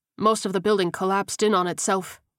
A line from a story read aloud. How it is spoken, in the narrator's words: Ortega said, shaking his head sadly